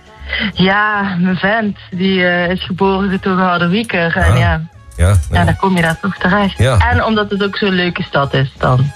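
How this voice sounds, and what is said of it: South Limburg Dutch accent. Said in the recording (Dutch): “ik hoor een accent, dat komt niet uit Harderwijk ... Ik ben geboren en getogen Zuid-Limburger.”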